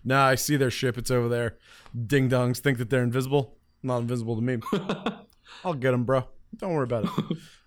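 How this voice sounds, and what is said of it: Dead-on Super Skrull impression. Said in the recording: “That's a dead-on Super Skrull impersonation ... That's exactly how he talks.”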